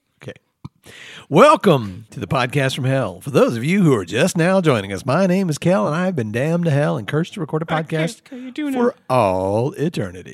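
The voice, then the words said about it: Put-on performance voice. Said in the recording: “You're doing a voice.”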